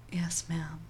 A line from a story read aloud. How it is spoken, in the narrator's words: whispered